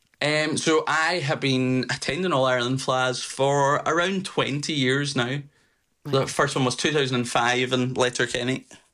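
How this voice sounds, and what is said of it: Slight Scottish accent. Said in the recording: “that's a bit of a Scottish brogue I'm picking up there”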